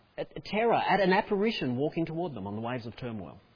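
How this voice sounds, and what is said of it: Speaker's own accent. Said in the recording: “I can never say it properly... Forgive me for this accent.”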